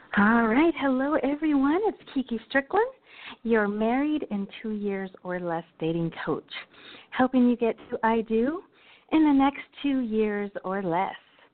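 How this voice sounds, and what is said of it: Breathless, out-of-breath speech. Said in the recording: “I'm sorry, I'm out of breath. ... I was running, trying to get here for the show in time.”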